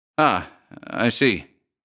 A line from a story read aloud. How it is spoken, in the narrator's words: said Shorthouse feebly